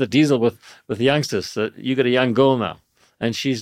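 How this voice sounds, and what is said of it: Usual voice. Nothing is said of it.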